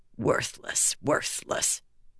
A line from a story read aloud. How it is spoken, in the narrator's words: she muttered